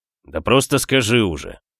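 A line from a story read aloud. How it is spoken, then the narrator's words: Impatient. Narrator (Russian): Я начал терять терпение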